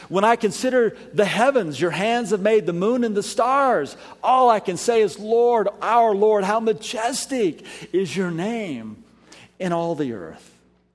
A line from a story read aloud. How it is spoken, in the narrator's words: David exclaims